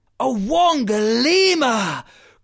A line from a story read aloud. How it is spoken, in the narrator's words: cried Duma the cheetah